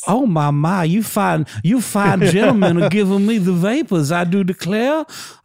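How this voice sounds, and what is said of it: Thick flirtatious Southern belle accent. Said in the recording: “put on a Southern accent ... adopting a thick Southern accent ... a rich, flirtatious Southern lady in town from Alabama”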